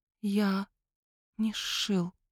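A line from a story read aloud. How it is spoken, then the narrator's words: Near whisper. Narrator (Russian): почти шепотом проговорил Франц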